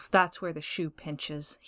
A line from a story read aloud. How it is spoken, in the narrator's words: he sneers